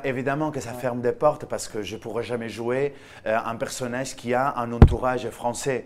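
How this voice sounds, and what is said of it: Foreign accent speaking French. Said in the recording (French): “il y a mon accent ... mon accent me trahit”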